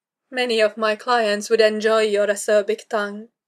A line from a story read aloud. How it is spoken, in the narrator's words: she commented icily